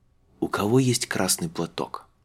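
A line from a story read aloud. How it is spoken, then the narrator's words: Whisper into silence. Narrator (Russian): шепнул Тарталья в тишину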